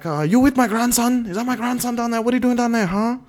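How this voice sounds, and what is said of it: Put-on Asian accent. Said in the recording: “you gotta stop with the Asian accent”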